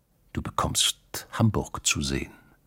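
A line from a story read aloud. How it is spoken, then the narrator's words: Quiet speech. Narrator (German): hatte er leise gesagt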